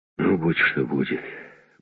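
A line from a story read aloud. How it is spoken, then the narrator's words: Grumble. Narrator (Russian): буркнул он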